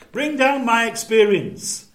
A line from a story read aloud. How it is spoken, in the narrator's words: shouted to his wife upstairs